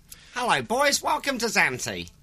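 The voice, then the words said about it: Imitates another person's voice. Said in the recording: “Can I do an impression of him?”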